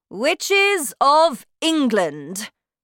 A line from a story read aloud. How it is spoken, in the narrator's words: she shouted